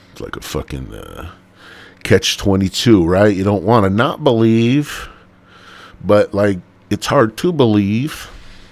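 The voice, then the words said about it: Stereotypical white guy voice. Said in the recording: “I don't know why I'm talking like a really, really white guy right now.”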